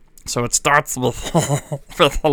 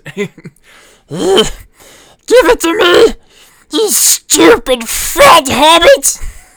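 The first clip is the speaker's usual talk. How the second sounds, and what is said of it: Funny Gollum character voice. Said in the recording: “how to do the voice of Gollum from Lord of the Rings ... So I'm gonna do Gollum here ... a little little funny voice”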